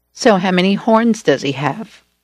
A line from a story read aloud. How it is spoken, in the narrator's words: I asked